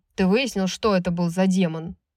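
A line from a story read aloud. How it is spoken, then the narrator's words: Rough question. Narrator (Russian): грубо спросил Рун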